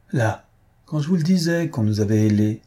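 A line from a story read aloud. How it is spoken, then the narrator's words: Count exclaiming. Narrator (French): s'écria le comte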